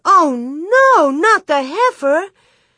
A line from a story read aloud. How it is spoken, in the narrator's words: Mary cried out